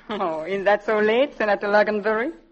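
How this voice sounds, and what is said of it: Viennese accent. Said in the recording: “what sort of an accent is that you have? ... Oh, that's Viennese.”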